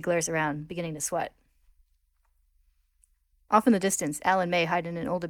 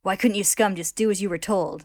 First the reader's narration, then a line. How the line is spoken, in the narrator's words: they growl